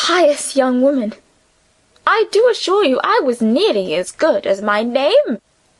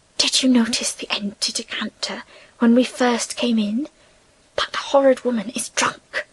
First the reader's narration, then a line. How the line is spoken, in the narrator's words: Alban whispering to Emily